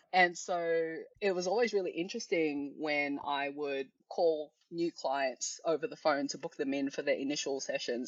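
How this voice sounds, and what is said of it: Australian accent. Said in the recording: “I have quite an Australian accent”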